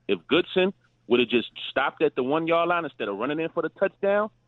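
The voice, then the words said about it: Brooklyn accent. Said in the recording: “from that accent, he'd been in Brooklyn for a hot minute. That sounds like Brooklyn to me, not Chicago.”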